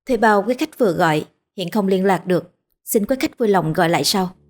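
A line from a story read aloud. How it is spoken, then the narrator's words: Cold, emotionless voice. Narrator (Vietnamese): giọng lạnh lùng, vô cảm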